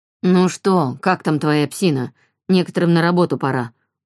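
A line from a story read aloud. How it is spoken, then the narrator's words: Gloomy. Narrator (Russian): мрачно сказал Альф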